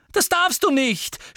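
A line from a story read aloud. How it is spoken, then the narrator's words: Screamed. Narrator (German): schrie Hermine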